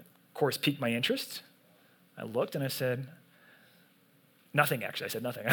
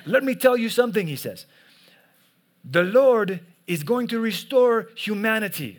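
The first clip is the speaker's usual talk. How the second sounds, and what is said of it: Put-on accent imitating a preacher. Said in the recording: “he had his accent ... I don't know what accent this is. This is the best I could do, so just go with it.”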